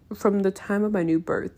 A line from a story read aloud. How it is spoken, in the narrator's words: he murmured